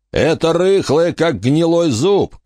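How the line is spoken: Shout. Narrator (Russian): крикнул Дарки

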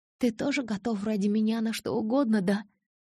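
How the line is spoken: Whispering. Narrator (Russian): прошептала она

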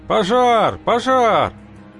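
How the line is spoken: Many voices yelling. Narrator (Russian): Заорали сразу в нескольких местах

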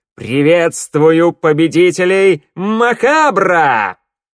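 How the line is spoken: Loud echoing exclamation. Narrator (Russian): громко, так что эхо взлетело до потолка, воскликнул

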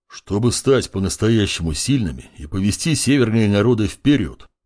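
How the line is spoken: Deep bass voice. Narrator (Russian): пробасил Буран

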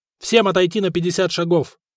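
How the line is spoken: Sharp command. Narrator (Russian): резко сказал Дагоберт

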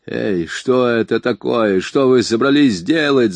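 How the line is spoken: Yelled. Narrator (Russian): заорал он

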